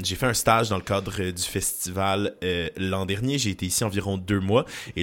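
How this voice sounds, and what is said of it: Quebec French accent. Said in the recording (French): “Si vous entendez un accent dans la rue”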